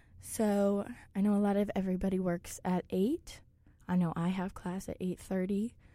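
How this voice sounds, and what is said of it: Sick, congested-sounding voice. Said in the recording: “forgive my voice. I am recovering from a chest cold, so I won't always sound like this.”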